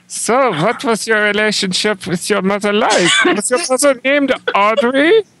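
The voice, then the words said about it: Fake German accent. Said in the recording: “the fake German accent”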